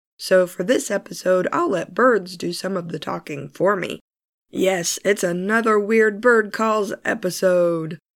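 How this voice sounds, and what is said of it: Hoarse voice from a cold. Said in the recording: “I still have this rotten cold, although I'm getting over it. As you can hear, my voice is pretty messed up”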